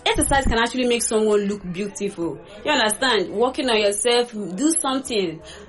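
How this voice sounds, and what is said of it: Speaker's own regional accent. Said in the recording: “you hear the accent of me”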